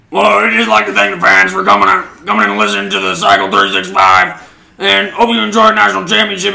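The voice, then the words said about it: Ed Orgeron impression. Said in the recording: “do the Ed Orgeron voice”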